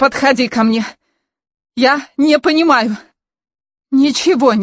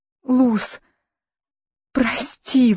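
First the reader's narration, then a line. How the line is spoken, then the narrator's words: Pleading. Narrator (Russian): взмолилась Каролина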